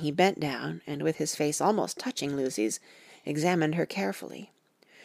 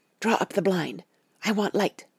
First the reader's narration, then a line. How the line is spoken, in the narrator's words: I could hear the sissing indraw of his breath, and he said to me in a sharp whisper